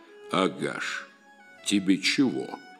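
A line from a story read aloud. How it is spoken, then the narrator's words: Stern question. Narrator (Russian): строго спросил Норд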